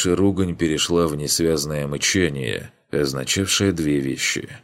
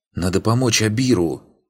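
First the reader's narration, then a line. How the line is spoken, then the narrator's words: Hissed reply. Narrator (Russian): прошипел в ответ Арлинг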